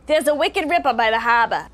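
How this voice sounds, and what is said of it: Exaggerated Boston accent. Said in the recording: “we got to really Boston it up”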